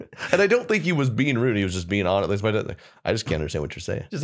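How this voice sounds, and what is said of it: Usual voice. Nothing is said of it.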